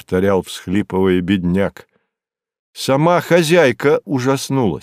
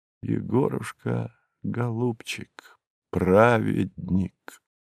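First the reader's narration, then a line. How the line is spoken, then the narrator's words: Whispered. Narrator (Russian): Мой знакомый повторил эти последние слова своего слуги, прошептал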